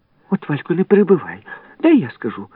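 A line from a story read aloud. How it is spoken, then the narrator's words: Sharp-nosed girl, excited chatter. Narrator (Ukrainian): вигукнула гостроносенька і знову затокотіла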